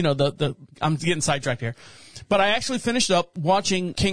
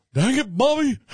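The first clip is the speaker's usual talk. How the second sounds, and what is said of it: Imitates a cartoon character's voice. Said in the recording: “That's my impression.”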